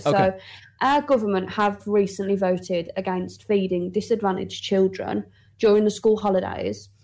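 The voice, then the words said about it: Birmingham English accent. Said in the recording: “I was expecting a completely different accent... definitely the lousy voice. If you hear a lousy voice, it's Birmingham in England”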